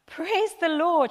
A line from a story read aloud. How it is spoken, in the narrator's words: she cried out